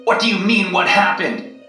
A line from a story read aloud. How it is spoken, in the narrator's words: screamed